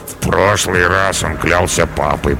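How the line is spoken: Sleepy mutter. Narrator (Russian): пробормотал Карабас

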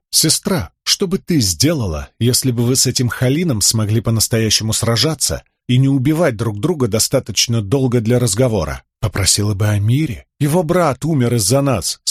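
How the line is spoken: Plain. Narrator (Russian): сказала Венли

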